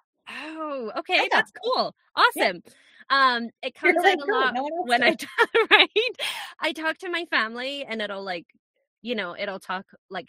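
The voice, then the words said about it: Hybrid Scottish-American accent. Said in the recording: “that is not a Scottish accent. You are correct, people. It is not a Scottish accent because I have lost it. It is some weird hybrid Scottish-American thing that I have going”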